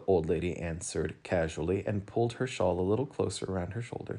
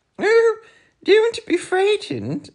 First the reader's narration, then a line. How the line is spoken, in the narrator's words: she laughed